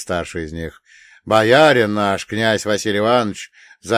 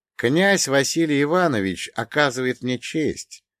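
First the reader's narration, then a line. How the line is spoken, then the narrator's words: Even-voiced. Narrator (Russian): ровным голосом произнес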